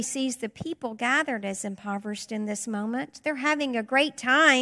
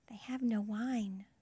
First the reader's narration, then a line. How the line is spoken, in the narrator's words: Mary whispers to her son